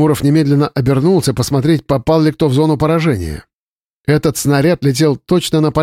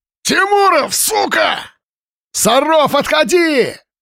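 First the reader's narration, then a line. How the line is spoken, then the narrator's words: Shouted. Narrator (Russian): крикнул ему Слава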